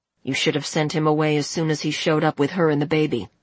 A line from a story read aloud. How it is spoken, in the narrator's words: George said coldly